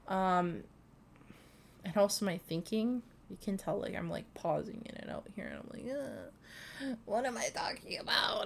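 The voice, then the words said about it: Congested, stuffy voice. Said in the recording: “You can even hear the congestion in my voice. So gross.”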